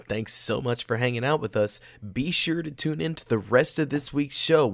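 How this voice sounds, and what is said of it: Tired late-night voice. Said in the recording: “if you can't tell by my voice right now, it's late”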